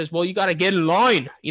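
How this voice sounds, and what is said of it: Poor put-on accent. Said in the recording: “I'm trying to do an accent there. Terrible.”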